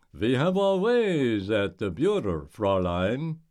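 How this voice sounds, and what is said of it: Bad put-on German accent. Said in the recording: “Doing a bad German accent”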